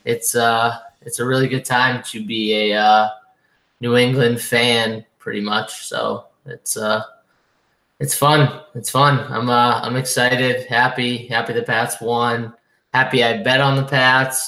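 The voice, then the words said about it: Hoarse, strained voice. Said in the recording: “I lost my voice from, you know, rooting for my Patriots”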